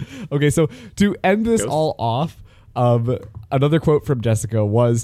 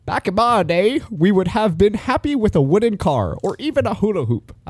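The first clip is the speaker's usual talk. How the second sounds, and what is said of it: Exaggerated elderly person voice. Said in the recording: “I don't know why I said it in my old person voice, but I just went for the old person”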